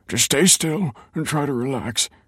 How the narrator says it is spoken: he grunted

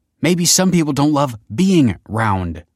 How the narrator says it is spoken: snapped Kelsey

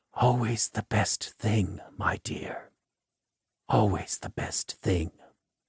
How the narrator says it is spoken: he whispers to her, who cannot hear him

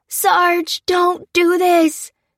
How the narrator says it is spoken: cried the soldier outside

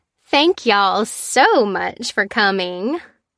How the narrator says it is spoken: Tessa gushed

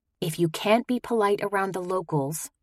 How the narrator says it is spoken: I whispered

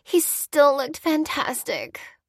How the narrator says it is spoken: whined Cassie

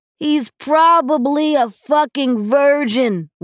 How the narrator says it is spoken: Will yelled

